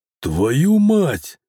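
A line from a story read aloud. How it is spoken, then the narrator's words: Shouting out. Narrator (Russian): выкрикнул Михаил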